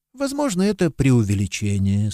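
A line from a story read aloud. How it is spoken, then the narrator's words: Calm admission. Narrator (Russian): спокойно признал отец Браун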